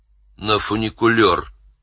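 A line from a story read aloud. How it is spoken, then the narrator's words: Snapped. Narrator (Russian): огрызнулся Фантомас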